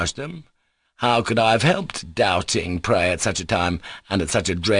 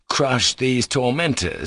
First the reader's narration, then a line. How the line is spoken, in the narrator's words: cried to that mountain